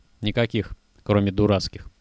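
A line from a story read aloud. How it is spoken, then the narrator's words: Sighing. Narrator (Russian): вздохнул Кожухов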